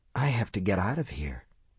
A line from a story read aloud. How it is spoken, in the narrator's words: he whispered